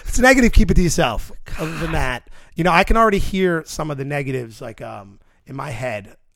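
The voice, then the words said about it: Strong New York accent. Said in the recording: “our accents are ridiculous. And if you're not from New York and you hear us talk”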